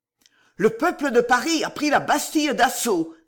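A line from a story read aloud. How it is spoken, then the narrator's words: Exclaiming. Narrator (French): s'écria-t-il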